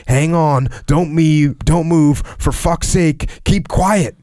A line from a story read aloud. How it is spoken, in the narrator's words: shouted out